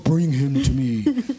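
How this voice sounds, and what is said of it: Deep booming voice. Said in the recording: “like in a deep voice”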